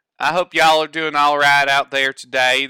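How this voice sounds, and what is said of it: Put-on Southern American accent. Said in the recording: “doing his requested southern accent for this episode ... southern edition”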